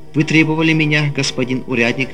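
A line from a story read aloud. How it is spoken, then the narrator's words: Plain. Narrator (Russian): спросил я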